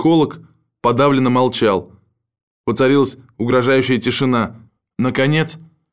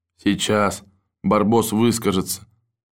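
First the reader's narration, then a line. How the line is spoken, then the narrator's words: Muttered under breath. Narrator (Russian): пробормотал себе под нос механик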